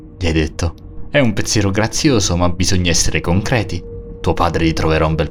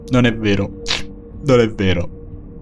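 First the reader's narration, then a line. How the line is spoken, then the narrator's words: Woman sobbing. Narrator (Italian): disse lei, sempre fra i singhiozzi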